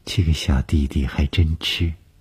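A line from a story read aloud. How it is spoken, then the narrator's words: Flat, indifferent. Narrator (Chinese): 董峰 只是淡淡地说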